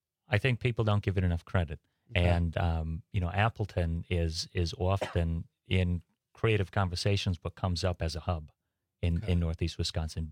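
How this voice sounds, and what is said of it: East Coast accent, slightly British. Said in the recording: “Is that where the accent's from? ... East Coast ... kind of sounds East Coast. Kind of sounds a little British. Doesn't sound Wisconsin.”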